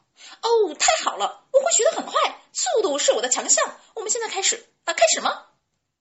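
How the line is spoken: Clear loud shout. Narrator (Chinese): 野兔朗朗大声的喊道

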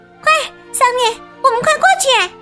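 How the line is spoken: Shouting. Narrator (Chinese): 艾米喊道

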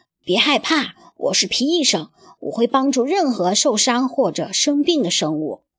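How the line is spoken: Gentle, soothing. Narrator (Chinese): 皮医生温柔地对他说

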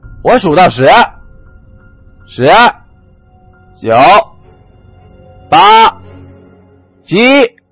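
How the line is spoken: Shouting. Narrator (Chinese): 继续喊道

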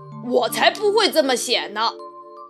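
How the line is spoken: Lion's roar. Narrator (Chinese): 狮子大吼

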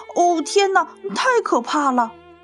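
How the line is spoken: Shouting. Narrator (Chinese): 卡普大叫着

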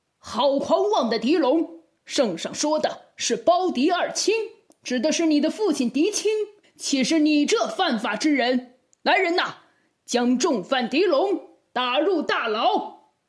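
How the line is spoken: Roaring angrily. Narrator (Chinese): 包公一听此话，立刻咆哮道

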